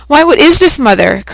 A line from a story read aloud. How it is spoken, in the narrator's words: cried she